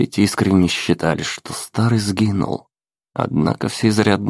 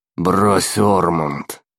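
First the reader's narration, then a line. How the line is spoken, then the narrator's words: Gloomy grumble. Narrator (Russian): хмуро проворчал Нолан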